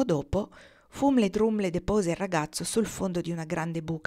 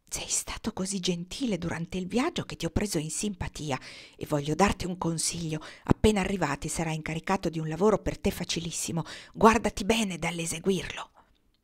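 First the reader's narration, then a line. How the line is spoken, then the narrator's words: Whisper amid deafening cawing. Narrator (Italian): Tra il gracchiare assordante dei saluti e delle congratulazioni, Fumle Drumle bisbigliò a Nils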